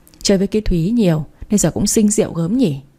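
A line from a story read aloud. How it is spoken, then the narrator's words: Sighing. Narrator (Vietnamese): thở dài nói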